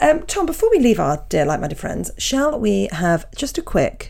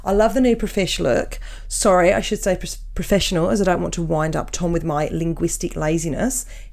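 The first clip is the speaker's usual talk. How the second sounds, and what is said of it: Put-on Australian accent. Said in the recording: “Shall I do the accent or is that offensive? ... I used to have an Australian ex, so I hope my accent's quite good”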